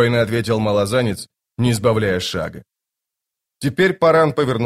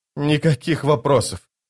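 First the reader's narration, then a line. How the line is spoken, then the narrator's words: Groan. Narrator (Russian): простонал Паран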